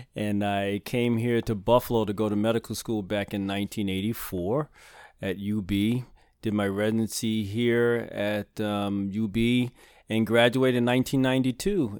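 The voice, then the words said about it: Slight Brooklyn accent. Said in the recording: “as you can probably tell from my little accent, I'm originally from Brooklyn.”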